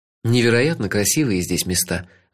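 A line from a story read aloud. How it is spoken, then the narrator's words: Sighing. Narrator (Russian): вздохнул я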